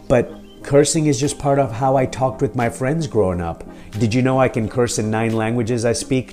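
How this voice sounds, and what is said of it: Mixed Kenyan, British and American accent. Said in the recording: “I have an accent because I'm from Mombasa and Nairobi and London and San Francisco and Buffalo, New York ... I have an accent because I speak multiple languages”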